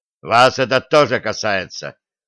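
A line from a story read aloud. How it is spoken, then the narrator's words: Sudden fierce bark. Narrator (Russian): внезапно рявкнул он на остальных, да так, что ковбои отшатнулись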